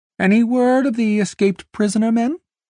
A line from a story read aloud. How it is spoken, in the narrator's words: Gilbert called out